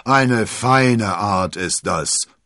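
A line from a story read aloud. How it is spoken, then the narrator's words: Blustering outburst. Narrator (German): polterte Porthos los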